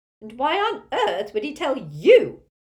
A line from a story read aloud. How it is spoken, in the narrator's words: screeched Muriel, swaying a little in her seat